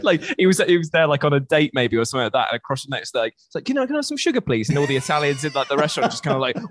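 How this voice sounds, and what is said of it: Usual voice. Nothing is said of it.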